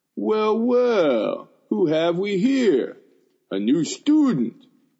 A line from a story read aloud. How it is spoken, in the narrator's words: a voice boomed